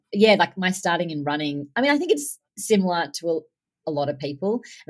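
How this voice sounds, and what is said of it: Australian accent. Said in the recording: “you guys can hear by her accent that ... is not in the United States ... I'm Australian”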